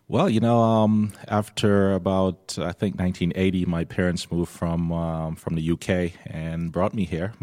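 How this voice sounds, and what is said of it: Slight British accent. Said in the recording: “a little bit of an accent”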